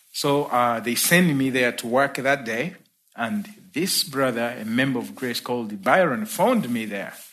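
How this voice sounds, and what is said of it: Ugandan accent. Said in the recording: “You have an accent. Where are you from?" I'm like, "Okay, I'm from Uganda.”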